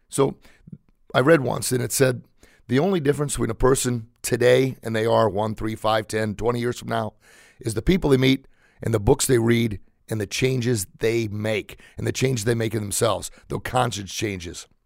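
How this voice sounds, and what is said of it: Raspy, hoarse voice. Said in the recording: “I'm really getting raspy here.”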